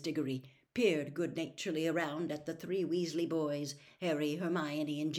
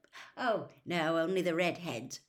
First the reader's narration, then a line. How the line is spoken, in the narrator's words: said Mr